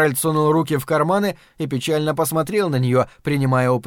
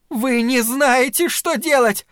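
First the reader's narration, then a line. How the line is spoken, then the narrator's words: Shouting. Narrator (Russian): закричала на них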